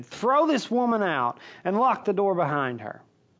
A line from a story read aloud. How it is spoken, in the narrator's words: he shouted for his servants and demanded